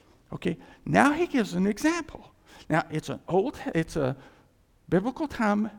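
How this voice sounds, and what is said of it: Usual voice. Nothing is said of it.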